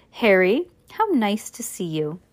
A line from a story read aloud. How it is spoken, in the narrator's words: solemnly as though he and Harry had never met and said